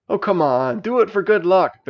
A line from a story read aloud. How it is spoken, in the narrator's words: begged the dragon